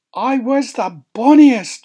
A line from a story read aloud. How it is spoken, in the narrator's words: shouted the queen